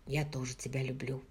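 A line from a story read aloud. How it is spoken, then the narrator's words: Whisper. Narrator (Russian): прошептал он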